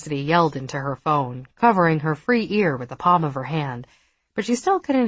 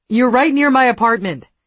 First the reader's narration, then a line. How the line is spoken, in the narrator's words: Cassidy shouted